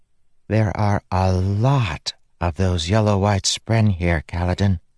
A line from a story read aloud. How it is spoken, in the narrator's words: she whispered